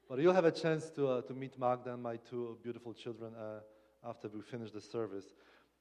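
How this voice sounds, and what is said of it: Polish accent. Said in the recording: “It is my Polish accent, right? ... You're not accustomed to that, I suppose.”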